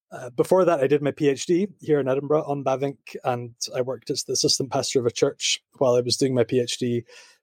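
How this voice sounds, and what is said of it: Scottish accent. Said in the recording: “I grew up in Scotland. I'm Scottish, as you can tell by my accent.”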